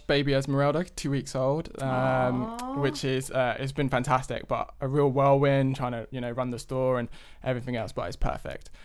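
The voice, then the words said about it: London English accent. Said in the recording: “we are originally from London, if you can't tell from the accent.”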